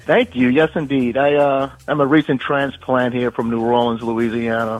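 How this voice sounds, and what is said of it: New Orleans accent. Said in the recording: “I like that accent.”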